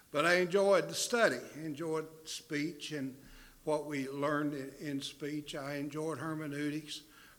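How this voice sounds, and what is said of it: Southern American accent. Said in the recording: “I tried to get rid of this southern accent, but it hadn't worked. Still have it.”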